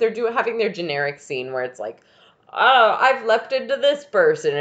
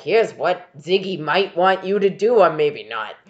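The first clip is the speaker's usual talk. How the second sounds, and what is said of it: Imitates another person's voice. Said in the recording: “good impression”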